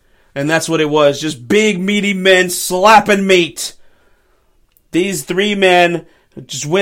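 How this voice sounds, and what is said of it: Usual voice. Nothing is said of it.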